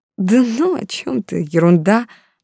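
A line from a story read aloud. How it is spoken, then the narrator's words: Embarrassed mumbling. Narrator (Russian): бормотала я, не зная, куда деться от смущения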